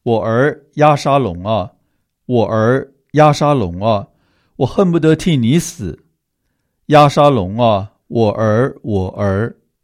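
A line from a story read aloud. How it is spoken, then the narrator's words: Grief-stricken wailing. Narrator (Chinese): 王就心里伤痛 哀哭，一面走一面说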